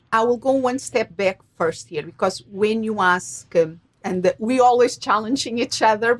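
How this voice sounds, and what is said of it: Portuguese accent. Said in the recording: “you come from the beautiful Portugal ... that's ... accent ... She adds S's to things and things like that”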